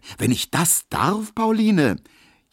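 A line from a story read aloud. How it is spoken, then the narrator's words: Calling out. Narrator (German): rief Emil Kubinke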